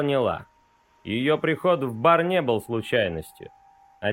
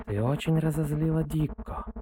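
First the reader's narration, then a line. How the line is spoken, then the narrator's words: Husky purr in ear. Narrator (Russian): сипло мурлыкает она мне в ухо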